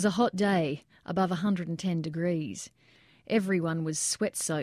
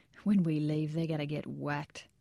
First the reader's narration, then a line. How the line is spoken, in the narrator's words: Ramirez smiled while saying under his breath